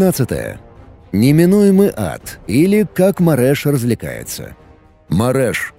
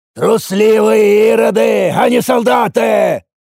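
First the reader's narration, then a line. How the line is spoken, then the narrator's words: Very loud shout. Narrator (Russian): выкрикнул я, даже громче, чем визжали раненые нурглы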